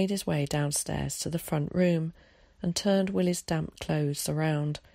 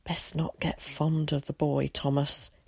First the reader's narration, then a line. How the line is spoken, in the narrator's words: muttered to himself